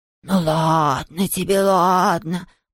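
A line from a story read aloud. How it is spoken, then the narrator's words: Muttered. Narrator (Russian): пробормотал Хуга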